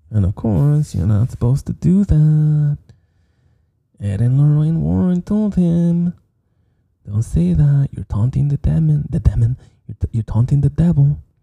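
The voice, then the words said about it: Regional accent, says demon like Damon. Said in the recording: “it's written demon. We just pronounced it Damon... Are you mocking my accent?... It sounds funny.”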